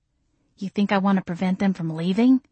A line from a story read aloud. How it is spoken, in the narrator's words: I whispered back